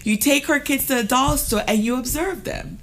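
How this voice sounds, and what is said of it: Jamaican accent. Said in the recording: “That is the Jamaican accent right there.”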